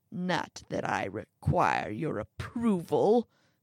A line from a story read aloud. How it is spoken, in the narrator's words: the old man grumbled